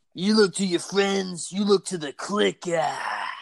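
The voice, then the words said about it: Imitates another person's voice. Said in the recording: “best Triple H impersonation”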